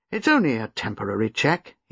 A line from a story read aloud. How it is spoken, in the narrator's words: he said, more cheerfully